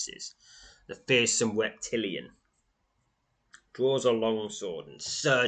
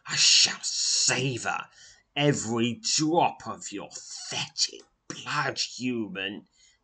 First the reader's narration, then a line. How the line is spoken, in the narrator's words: hisses the webbed-robed leader of the Tzal